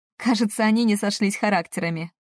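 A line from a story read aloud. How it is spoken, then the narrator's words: Laughing. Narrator (Russian): засмеялась я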